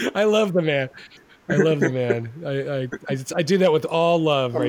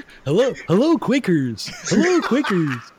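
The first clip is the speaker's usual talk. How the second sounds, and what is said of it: Convincing impression of a co-host. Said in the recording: “at this point, we're kind of interchangeable voice-wise. I've been practicing. ... That was convincing. ... That's a great impression.”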